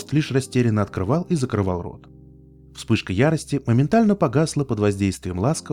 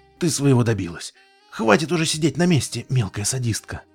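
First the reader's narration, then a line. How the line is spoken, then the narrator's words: Strangled exhale. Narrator (Russian): Фрост сдавленно выдохнул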